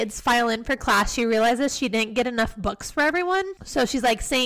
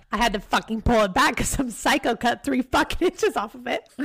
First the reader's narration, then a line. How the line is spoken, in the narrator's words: she almost laughs because she's like